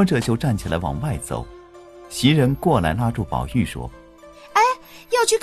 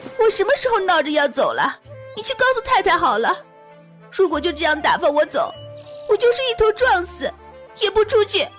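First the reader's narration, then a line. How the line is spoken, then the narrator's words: Anxious, crying. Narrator (Chinese): 秦雯急哭着说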